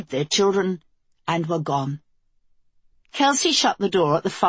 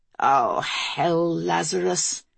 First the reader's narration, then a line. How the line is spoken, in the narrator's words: Kelsey replied wearily